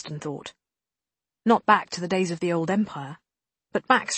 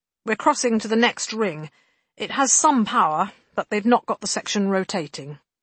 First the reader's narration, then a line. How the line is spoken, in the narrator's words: Guyon cautioned, his voice crisp over the helmet radio